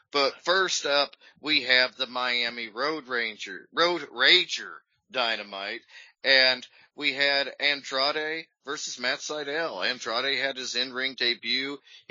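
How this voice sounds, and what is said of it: Hoarse voice. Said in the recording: “My voice is still hoarse from booing and cheering.”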